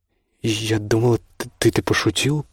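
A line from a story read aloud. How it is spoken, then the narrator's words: Muttered. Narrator (Russian): пробормотала она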